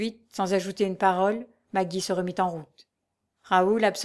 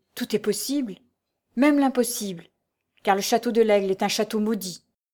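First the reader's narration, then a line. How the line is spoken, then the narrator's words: Murmur. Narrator (French): murmura-t-elle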